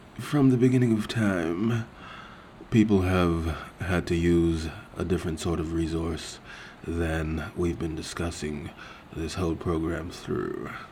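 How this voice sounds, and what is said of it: Odd put-on accent. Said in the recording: “Is that supposed to be an accent?”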